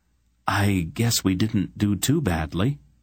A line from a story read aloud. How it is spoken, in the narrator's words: Geryon murmured